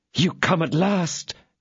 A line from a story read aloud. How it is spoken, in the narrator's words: cried D'Artagnan